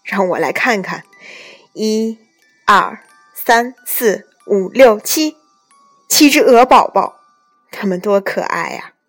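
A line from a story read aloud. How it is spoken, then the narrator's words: Smiling. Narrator (Chinese): 他笑着说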